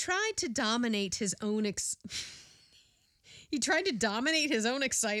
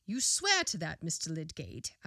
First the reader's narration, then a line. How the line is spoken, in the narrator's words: asked the coroner